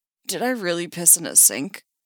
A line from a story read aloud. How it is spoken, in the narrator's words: He asks, voice croaky